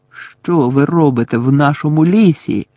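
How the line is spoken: Stern old centaur shouting. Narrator (Ukrainian): вигукнув суворий сивий кентавр

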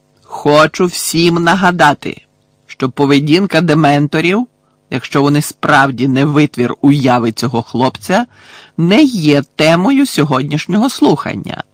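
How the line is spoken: Exclaimed. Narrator (Ukrainian): вигукнув Фадж

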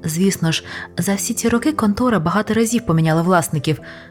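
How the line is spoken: Plain. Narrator (Ukrainian): сказав пан Паддікомб

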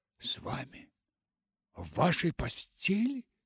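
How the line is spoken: Delighted exclamation. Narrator (Russian): восторженно воскликнула она

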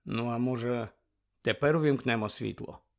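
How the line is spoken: Gentle question. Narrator (Ukrainian): лагідно запитав

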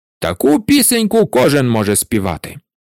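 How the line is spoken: Angry reply. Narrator (Ukrainian): сердито відповів пан управитель

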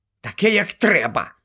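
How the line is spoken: Angry snap. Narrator (Ukrainian): сердито огризнулася Герміона

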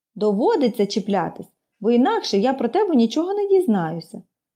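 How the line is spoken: Calm explanation. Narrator (Ukrainian): спокійно пояснила Поліанна

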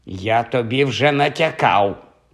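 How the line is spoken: Hissing. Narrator (Ukrainian): просичав Кальцифер

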